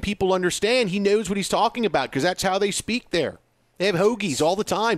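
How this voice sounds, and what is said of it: Pennsylvania accent. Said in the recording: “your Pennsylvania accent ... my Pennsylvania accent”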